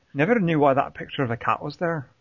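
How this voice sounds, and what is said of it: Put-on Scottish or Irish accent. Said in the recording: “do the quote correctly with the accent ... was that Scottish or Irish? Because I certainly couldn't tell.”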